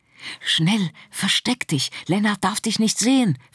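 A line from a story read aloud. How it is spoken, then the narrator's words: Whispered. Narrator (German): flüsterte sie Frieda zu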